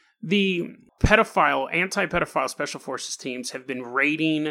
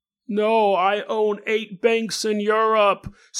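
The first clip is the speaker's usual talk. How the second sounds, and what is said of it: Put-on accent. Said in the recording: “that accent”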